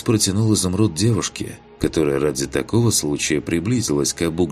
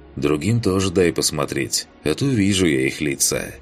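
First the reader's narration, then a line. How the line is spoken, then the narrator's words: Snorted. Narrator (Russian): Хмыкнул он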